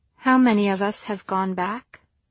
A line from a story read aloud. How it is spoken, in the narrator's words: Lundy sighed